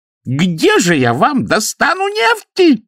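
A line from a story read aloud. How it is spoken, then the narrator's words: Thin, shrill shouting. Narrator (Russian): кричал аллилуйя голосом еще более тонким и визгливым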